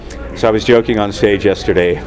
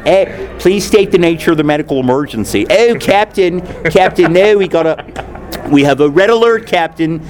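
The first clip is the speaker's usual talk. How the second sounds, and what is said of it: Put-on Philadelphia accent. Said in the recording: “the Baltimore accent, which is similar to the Philadelphia accent ... if the whole Voyager cast had come from Philly, you know what that would sound like”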